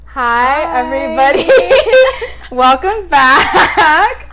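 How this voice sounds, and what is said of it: Loud, shouting greeting. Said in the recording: “Why do you sound so loud?”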